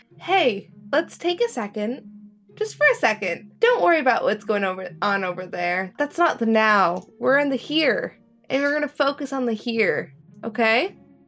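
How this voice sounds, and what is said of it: Calm, soothing voice. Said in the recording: “In a very calming voice, in a very soothing voice.”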